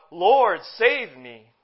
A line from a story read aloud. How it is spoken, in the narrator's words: Peter, as he was sinking, he cried out